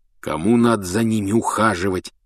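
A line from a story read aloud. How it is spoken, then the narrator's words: Grumbling. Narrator (Russian): ворчал Рон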